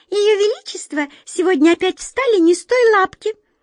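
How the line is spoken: Worried squeak. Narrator (Russian): озабоченно пропищала одна мышка

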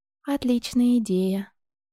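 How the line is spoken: Quiet reply. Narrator (Russian): тихо ответила та

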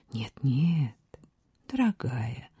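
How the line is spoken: King, gentle objection. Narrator (Russian): ласково возразил король

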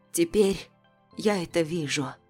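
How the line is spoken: Trembling voice. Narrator (Russian): дрожащим голосом отзывается Елизавета

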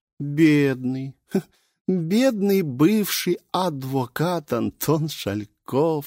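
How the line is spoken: Giggling. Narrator (Russian): хихикнула Лилит

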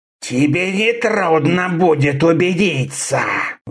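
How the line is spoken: Vicious hiss. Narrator (Russian): Злобно прошипел Сита

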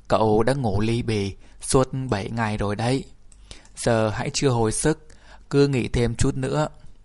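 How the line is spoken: Warm, welcoming. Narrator (Vietnamese): Indias bằng giọng niềm nở, ông nói

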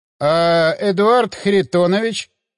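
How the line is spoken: Uncertain drawl. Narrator (Russian): неуверенно протянул Кузьминок

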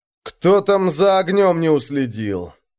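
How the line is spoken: Groaning. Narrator (Russian): простонал он

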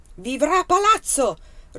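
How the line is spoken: King roaring. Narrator (Italian): ruggì il re

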